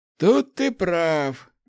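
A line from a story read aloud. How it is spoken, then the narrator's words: Wry snort. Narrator (Russian): хмыкнул Ларс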